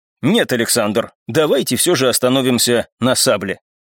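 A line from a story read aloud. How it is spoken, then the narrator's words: Confident tone. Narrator (Russian): уверенным тоном произнес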